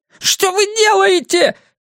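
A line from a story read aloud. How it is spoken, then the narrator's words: Squeaking. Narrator (Russian): пискнул торговец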